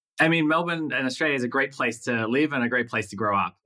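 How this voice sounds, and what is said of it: Australian accent. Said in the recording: “You were born in Australia ... the battle of the accents”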